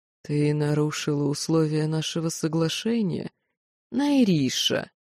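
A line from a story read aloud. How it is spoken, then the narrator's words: Hissing. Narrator (Russian): прошипел лорд Элохар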